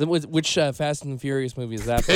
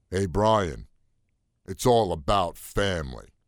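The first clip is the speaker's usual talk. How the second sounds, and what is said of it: Imitates an actor's voice. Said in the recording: “my Vin Diesel impression, the micro impression of ... My Vin Diesel impression.”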